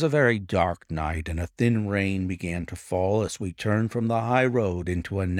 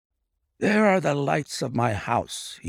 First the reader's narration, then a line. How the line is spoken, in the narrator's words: he murmured